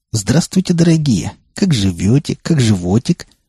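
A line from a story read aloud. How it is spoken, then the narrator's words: Mocking chuckle. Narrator (Russian): хохотнул я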